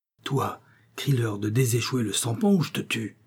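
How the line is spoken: Growl in the ear. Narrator (French): gronda Ikoteruka dans l'oreille de son prisonnier

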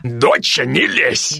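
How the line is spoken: Father's loud bark. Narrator (Russian): гаркнул папа тоном, не мешая мне тебя выгодно пристраивать

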